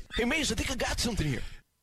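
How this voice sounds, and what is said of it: Mediocre impression of John. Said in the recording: “he's doing a John impersonation ... It's not terrible. ... It's not good, but it's not terrible”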